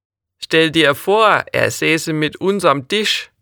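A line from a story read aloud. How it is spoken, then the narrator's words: Mocking remark. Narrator (German): bemerkte Otto spöttisch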